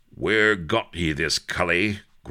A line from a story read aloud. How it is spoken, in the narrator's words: growled a menacing voice